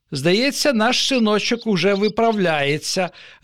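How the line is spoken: Joyful father. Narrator (Ukrainian): радісно повідомив татусь матусі

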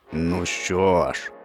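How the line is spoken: Growl. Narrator (Ukrainian): загарчав лев

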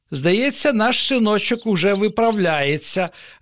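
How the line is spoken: Joyful father. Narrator (Ukrainian): радісно повідомив татусь

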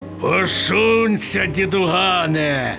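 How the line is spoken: Bark. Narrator (Ukrainian): гаркнув Клепка

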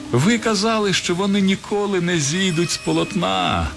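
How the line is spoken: Cheerful shout. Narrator (Ukrainian): весело кричав я поверх коров'ячих голів

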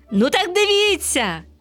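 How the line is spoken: Sunbeam's exclamation. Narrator (Ukrainian): вигукнув сонячний зайчик

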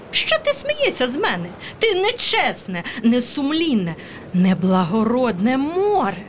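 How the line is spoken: Squeaky bird voice. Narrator (Ukrainian): пищала синиця

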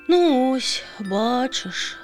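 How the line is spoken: Sighing again. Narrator (Ukrainian): знову зітхнула пташка

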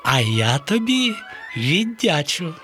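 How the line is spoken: Joyful. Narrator (Ukrainian): радісно сказала Хмаринка

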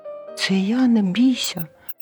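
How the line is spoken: Squeaky mouse voice. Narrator (Ukrainian): писк рудої миші

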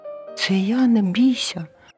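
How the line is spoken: Mouse squeak. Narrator (Ukrainian): писк рудої миші

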